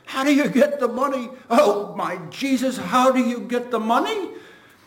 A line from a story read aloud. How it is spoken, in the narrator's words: the laughter, paroxysmal now, seals throat and bloats him with its containment